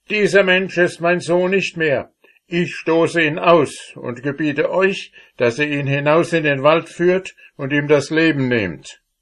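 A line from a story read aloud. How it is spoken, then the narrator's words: Furious father. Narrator (German): geriet der Vater in den höchsten Zorn, sprach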